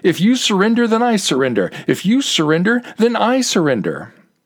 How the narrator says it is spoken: shouted

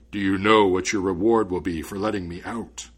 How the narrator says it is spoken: the spirit asked in a frightening voice

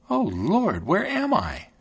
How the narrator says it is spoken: she exclaimed

